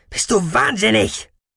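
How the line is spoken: Shouted. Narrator (German): schrie er

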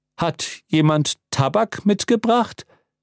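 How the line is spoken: Plain. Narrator (German): fragte der Dekan

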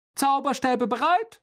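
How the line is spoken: Calling out. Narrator (German): rief Lockhart

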